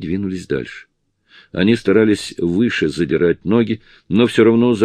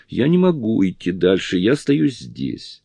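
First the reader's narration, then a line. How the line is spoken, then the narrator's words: Whiny childish mumble. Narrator (Russian): Капризным детским голосом она пробормотала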